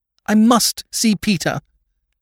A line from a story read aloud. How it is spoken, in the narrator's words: cried Lady Mary